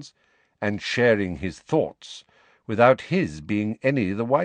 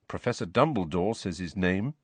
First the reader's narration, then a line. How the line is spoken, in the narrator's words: said Harry quietly